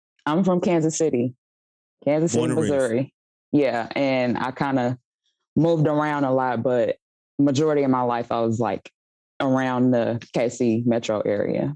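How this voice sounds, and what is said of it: Kansas City accent. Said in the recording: “you had an accent. Are you from there? Or you, is that's the Kansas City accent that you have?”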